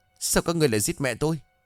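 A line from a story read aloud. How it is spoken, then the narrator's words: Angry. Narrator (Vietnamese): Dũng tức giận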